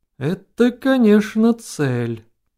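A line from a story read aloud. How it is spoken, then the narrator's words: Doubtful drawl. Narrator (Russian): протянул Богниц недоверчиво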